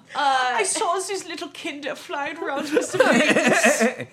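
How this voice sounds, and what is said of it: Bad put-on foreign accent. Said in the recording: “We really are back with a bad accent.”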